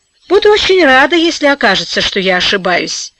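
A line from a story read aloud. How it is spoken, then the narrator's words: Girl's grown-up sigh. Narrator (Russian): по-взрослому вздохнула девочка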